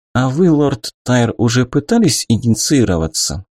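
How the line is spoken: Calm inquiry. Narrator (Russian): спокойно поинтересовалась магистресса

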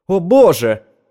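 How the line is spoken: Exclaiming. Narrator (Russian): воскликнул Эдельстайн

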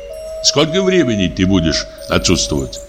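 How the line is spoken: Plain. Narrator (Russian): спросил Тригор

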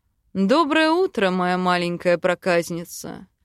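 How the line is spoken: Husband's tender purr. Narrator (Russian): Замурлыкал муж

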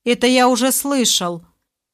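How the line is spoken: Rude interruption, prisoner. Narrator (Russian): довольно грубо оборвал рассказ башка узник

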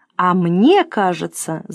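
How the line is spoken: Shouting. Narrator (Russian): закричал Василий Акимыч

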